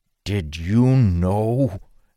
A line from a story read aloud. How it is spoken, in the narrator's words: Peridon asked Dalen through clenched teeth